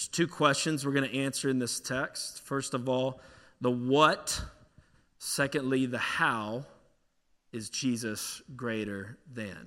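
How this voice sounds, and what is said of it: Pittsburgh Yinzer accent. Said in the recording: “I know y'all can notice I'm from Pittsburgh. This Yinzer accent's”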